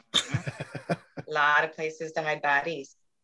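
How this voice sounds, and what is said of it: Midwestern accent, Fargo-like. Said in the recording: “I've been waiting for the Midwest accent to come out. You just did it now. The baddies. ... Fargo. That's all I think about with that accent.”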